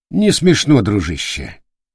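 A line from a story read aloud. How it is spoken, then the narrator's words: Calm reply. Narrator (Russian): спокойно ответил Шилов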